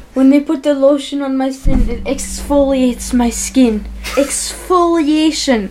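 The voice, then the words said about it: Put-on Polish accent. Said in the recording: “pump up my Polish accent”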